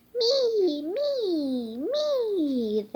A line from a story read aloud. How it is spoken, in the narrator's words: they squealed